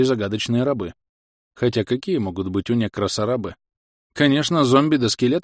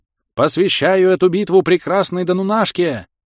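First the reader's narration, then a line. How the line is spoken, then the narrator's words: Knight's habitual shout. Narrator (Russian): уже привычно выкрикнул рыцарь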